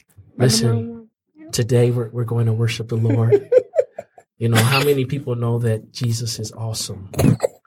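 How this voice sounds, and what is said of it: Impression of a worship leader. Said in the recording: “my Spring Arbor impression”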